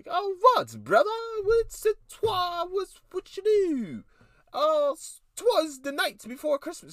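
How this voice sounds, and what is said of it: Put-on old English accent. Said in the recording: “they talked in that little English tone ... You're welcome for the accent.”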